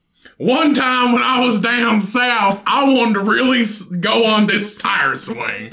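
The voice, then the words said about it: Exaggerated, deliberately bad redneck accent. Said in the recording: “I'll throw a redneck accent to it and make it sound terrible.”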